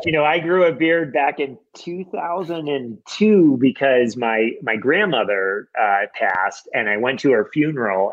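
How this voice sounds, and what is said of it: American accent. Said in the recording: “the American accent”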